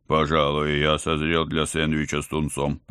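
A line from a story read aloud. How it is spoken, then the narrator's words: Deep bass voice. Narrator (Russian): пробасил Ватсон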